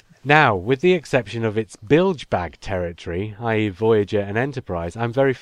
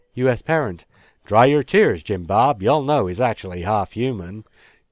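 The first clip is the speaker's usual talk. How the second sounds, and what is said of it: Put-on West Country English accent. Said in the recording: “with a West Country accent”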